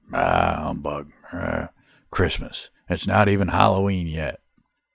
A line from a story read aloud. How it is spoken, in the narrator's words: a pause and a sigh, and softly you could hear under his breath some grumbling